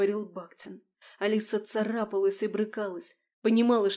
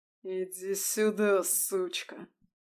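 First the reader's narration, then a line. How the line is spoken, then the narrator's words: Hissed. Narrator (Russian): прошипел Бахтин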